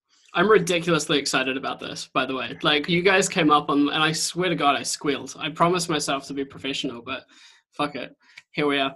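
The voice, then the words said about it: New Zealand accent. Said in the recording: “You have an interesting accent. ... I have a New Zealand accent. ... you sound Kiwi ... either Australia or New Zealand”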